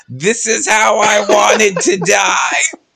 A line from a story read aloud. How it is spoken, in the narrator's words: yell